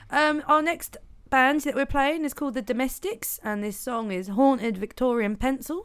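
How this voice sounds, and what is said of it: East Anglian accent. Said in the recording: “speaking of East Anglia ... the voice ain't going to change ... Hence the accent.”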